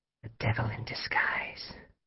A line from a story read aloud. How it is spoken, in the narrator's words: muttered